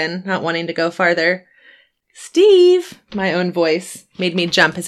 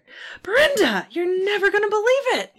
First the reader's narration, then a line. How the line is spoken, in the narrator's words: he exclaimed enthusiastically